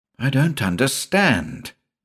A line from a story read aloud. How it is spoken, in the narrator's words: purred Avilton